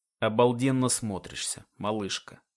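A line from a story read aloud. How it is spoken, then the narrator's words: Low voice. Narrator (Russian): Низким голосом произносит Джером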